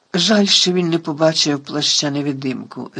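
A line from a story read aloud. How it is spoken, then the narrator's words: Sigh. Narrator (Ukrainian): зітхнув Гаррі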